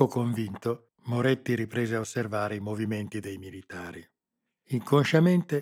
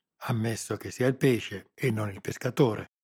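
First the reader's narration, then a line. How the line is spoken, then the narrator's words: Low half-voiced murmur. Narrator (Italian): mormorò a mezza voce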